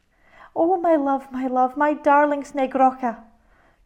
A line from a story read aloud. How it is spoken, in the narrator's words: cried the kind-hearted woman